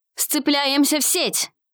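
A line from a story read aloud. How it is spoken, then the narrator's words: Shouting to the group. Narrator (Russian): крикнул он остальным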